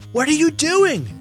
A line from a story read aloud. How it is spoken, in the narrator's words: shouted Captain Caspian